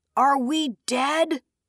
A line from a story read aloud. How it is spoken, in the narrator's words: Moraine hollered